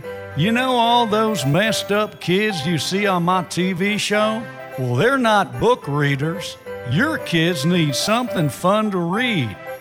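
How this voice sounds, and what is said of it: Dr. Phil impression. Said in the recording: “Celebrity voice impersonated. ... This is Dr. Phil”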